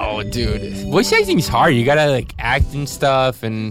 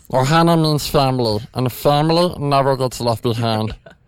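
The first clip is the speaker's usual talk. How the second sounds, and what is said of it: Imitation of Stitch's voice. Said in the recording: “my Stitch voice”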